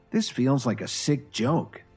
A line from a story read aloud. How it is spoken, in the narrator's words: Kevin sighed